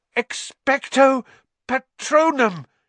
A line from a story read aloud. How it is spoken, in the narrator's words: he gasped